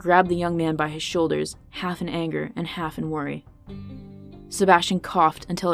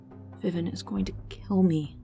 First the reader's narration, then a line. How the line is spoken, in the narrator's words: Zan whispered in a strained tone